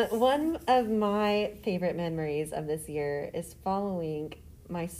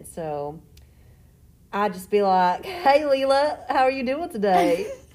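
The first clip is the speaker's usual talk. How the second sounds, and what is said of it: Loud put-on Western accent. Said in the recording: “my Western accent ... her favorite accent is a Western accent. You have to talk like this. You have to say it real loud”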